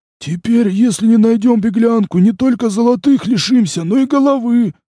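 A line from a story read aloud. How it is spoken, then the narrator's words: Groaning dwarf. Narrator (Russian): застонал карлик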